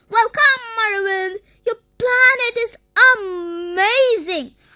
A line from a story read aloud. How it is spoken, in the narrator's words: Arvind exclaimed